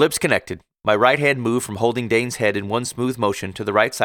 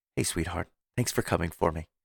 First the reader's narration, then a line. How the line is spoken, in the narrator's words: she whispered